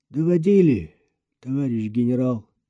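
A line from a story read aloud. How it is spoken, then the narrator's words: Flat colorless voice. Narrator (Russian): бесцветным голосом подтвердил Андрей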